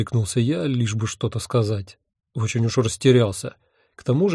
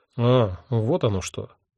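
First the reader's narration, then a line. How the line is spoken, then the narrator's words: Gruff mutter. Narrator (Russian): буркнул мой невидимый собеседник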